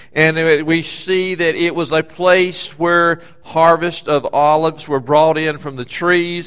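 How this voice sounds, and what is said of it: Southern US accent. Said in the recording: “my southern beach Eastern accent is hard to understand sometimes with y'all out here”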